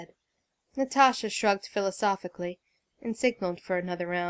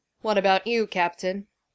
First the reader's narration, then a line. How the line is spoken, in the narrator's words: Thor rumbled